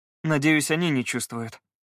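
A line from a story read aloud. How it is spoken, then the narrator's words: Sighing. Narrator (Russian): вздохнул Скай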